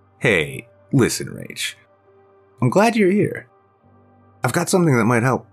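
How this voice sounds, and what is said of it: Serious voice. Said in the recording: “in a serious voice”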